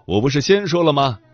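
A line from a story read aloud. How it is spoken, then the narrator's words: Calling out. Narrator (Chinese): 叫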